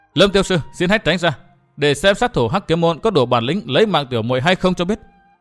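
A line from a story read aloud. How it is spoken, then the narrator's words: Woman's raised voice. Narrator (Vietnamese): Trạm Tình Nữ cao giọng nói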